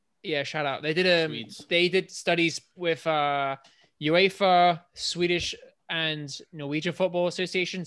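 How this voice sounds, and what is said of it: British accent with heavy R's. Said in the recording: “accent, it's like his R's are heavy ... because he's British ... your accent's unique though”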